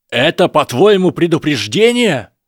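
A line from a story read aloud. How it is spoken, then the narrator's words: Shouting. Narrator (Russian): Драко уже кричал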